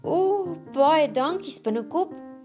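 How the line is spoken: Excited. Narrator (Afrikaans): sê Frederikkie opgewonde

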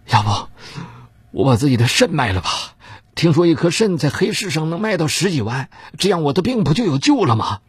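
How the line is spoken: Quick reply. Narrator (Chinese): 妻子马上说道

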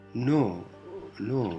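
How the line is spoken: Barely audible murmur. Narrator (Spanish): murmuró Sonia con una voz apenas audible

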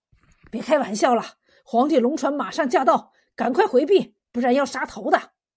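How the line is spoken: Hurried, urgent. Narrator (Chinese): 头一条船上的差役一见势头不对，急忙说

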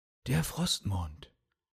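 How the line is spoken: Quiet, to himself. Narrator (German): sagte Theowin leise zu sich selbst

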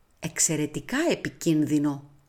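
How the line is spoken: Whispered. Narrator (Greek): ψιθύρισε

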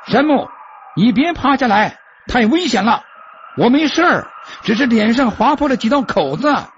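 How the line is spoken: Loud shout from below. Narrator (Chinese): 比尔在下面高声叫喊起来

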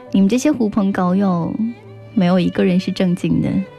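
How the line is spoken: Laughing. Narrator (Chinese): 小裴笑着说

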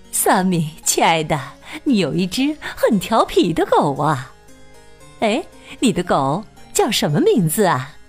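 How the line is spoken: Smiling woman. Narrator (Chinese): 品特太太笑着说

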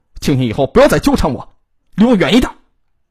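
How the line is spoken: Angry. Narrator (Chinese): 姚鑫愤怒的说道

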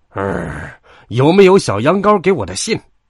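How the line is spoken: Angry roar. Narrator (Chinese): 他大吼着，因为发现小羊羔没有来赴约，让他很恼火

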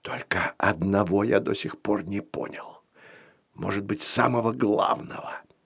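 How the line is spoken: Whisper. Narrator (Russian): прошептал Коптин

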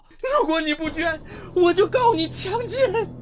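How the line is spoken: Hoarse desperate crying scream. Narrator (Chinese): 张慧玲声嘶力竭地哭道

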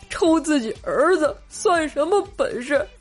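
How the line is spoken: Crying. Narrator (Chinese): 冰棍哥哭泣着说道

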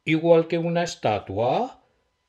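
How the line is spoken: Surprised exclamation. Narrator (Spanish): exclamó Nolly, abriendo la boca sorprendida

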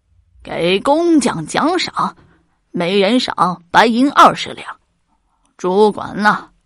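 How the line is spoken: Delighted, loud laughing voice. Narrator (Chinese): 乾隆高兴的仰天大笑，高声的说

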